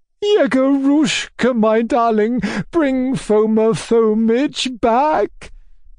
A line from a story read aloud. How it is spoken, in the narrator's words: she cried